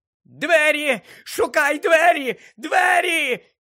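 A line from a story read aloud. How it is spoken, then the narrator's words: Screeching into ear. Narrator (Ukrainian): Він верещав у вухо Гаррі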